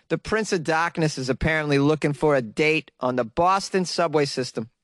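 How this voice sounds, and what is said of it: Put-on Boston accent. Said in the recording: “I get to do the accent ... read this in a Boston accent.”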